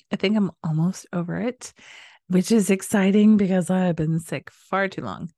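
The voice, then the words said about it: Slightly stuffy, congested voice. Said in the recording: “I have been a little bit under the weather lately ... if I sound a little stuffy.”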